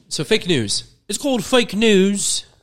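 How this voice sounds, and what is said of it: Impression sounding like a Pittsburgh accent. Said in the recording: “That was my Trump impression ... That sounded like you were from Pittsburgh.”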